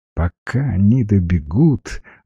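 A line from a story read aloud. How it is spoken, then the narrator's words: Gentle explanation. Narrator (Russian): ласково объяснила Света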